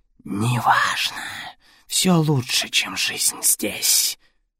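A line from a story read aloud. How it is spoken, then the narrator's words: Creature's hoarse rasp. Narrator (Russian): прохрипела тварь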